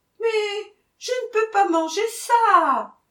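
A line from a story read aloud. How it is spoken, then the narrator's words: Bride moaning. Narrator (French): gémit la mariée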